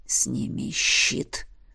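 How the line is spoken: Hoarse, muffled voice. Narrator (Russian): Хриплый голос Эдмунда донесся словно сквозь магический туман

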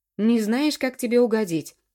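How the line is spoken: Thundering voice. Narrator (Russian): прогремел я

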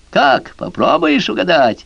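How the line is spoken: Gloating laughter. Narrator (Russian): Довольный собой черт злорадно захохотал

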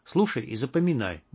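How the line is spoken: Fast nervous whisper. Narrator (Russian): быстро зашептал он, нервно оглядываясь

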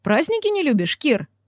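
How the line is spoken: Snort. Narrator (Russian): Хмыкнул Макс

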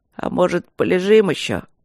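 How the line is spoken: Sleepy question. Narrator (Russian): сонно спросил Рыжов

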